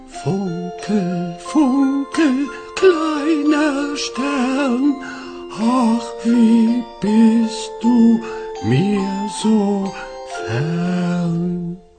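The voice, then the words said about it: Soft whispered singing. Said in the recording (German): “Nun flüstern. ... Oh, das war so schön und leise.”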